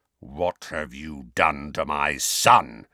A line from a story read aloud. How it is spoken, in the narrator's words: he said in a menacing growl